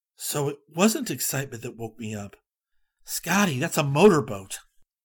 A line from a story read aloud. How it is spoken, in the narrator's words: He whispered